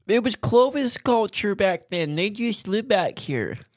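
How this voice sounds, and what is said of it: Imitates a university professor. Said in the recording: “That was my impression of a professor at a university.”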